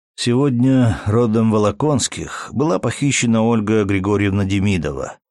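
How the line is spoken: Calm, nearly emotionless. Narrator (Russian): спокойно и почти без эмоций начал Матвей

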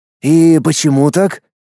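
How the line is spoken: Hoarse, composed. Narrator (Russian): взяв себя в руки, хрипло произнес Стуков

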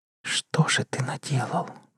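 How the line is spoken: Whisper. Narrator (Russian): прошептала Полина

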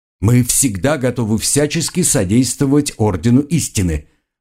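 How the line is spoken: Loud. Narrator (Russian): громко сказал Гарольд

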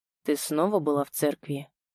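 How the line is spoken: Quiet question. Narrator (Russian): тихо спросил

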